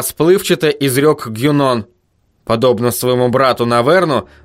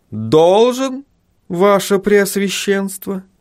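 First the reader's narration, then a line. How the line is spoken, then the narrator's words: Calm questioning. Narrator (Russian): переспросил он спокойным тоном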